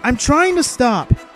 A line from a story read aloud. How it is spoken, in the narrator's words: Anakin shouted in reply